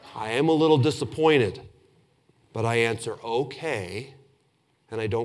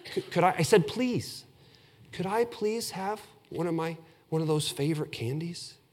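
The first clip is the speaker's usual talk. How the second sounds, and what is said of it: Sweet, polite asking voice. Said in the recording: “I do it with my nicest voice... It wasn't my mean voice. I did it in my nice voice.”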